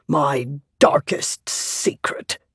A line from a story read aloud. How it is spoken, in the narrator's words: he grumbled